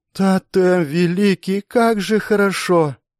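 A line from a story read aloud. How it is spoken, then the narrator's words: Moaning. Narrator (Russian): Застонала Беатрис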